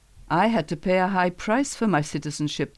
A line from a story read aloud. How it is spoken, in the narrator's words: the commander said